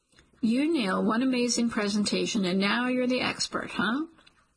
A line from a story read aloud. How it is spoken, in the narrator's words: He says it teasingly